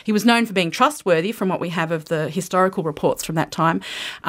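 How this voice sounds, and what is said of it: Australian accent. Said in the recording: “you're Australian. ... Can you tell from the accent?”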